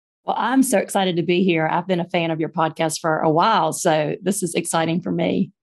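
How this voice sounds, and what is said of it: Southern US accent, Birmingham. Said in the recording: “I love your accent. Birmingham... We're both in the South”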